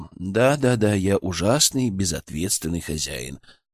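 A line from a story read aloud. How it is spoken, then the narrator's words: Mutter. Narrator (Russian): пробормотал я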